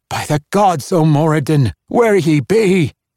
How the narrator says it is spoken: Brunner gasped

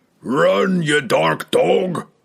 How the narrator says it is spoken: roared the giant

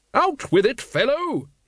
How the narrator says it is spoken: Lady Ramkin boomed

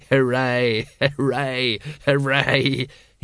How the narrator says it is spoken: he giggled, almost choking

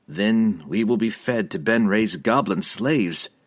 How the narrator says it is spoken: Dinan replied dryly

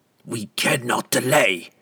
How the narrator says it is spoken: the obviously flustered assassin snapped

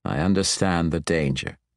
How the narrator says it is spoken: Matron Mother Xerath assured him, her voice dead, defeated

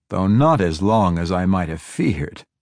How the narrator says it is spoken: he added with a chuckle

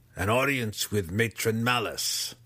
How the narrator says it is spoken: said grimly

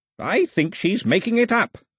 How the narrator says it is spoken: snapped

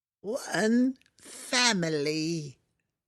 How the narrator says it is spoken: it croaked

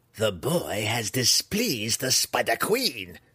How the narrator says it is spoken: Malice growled, openly enraged and tired of Zack's sarcasm

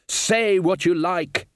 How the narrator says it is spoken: he shouted

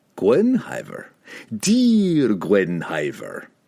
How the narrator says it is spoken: Pook purred

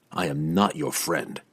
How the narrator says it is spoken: Drizzt growled back

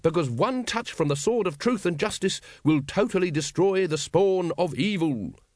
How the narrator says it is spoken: said the Supreme Grand Master triumphantly

